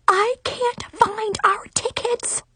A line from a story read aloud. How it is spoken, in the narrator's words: I shrieked quietly